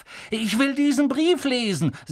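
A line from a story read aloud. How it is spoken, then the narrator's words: Loud. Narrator (German): sagte er laut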